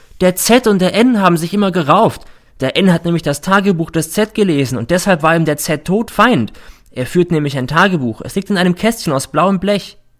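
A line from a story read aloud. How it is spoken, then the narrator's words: Sudden shout. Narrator (German): schreit plötzlich der R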